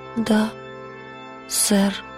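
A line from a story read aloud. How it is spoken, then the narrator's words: Barely audible. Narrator (Russian): сказала она чуть слышным голосом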